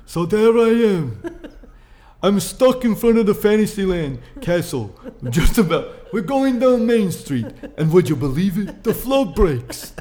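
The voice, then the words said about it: Put-on old man's Jewish accent. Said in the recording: “Why does he have a Jewish accent? ... I'm not doing a very good accent right there. But I have a feeling I'm going to have a funny, like, accent when I'm an old man telling stories.”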